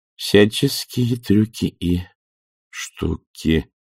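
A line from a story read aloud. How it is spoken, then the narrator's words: Uncertain reading aloud. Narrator (Russian): неуверенно зачитала она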